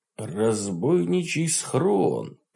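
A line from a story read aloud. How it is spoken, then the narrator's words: Mumble. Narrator (Russian): пробормотал я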